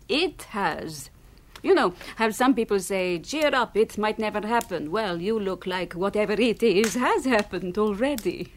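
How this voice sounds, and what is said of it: Noticeable foreign accent. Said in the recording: “Where's your accent from? ... I was born in Poland, but I moved away when I was very young.”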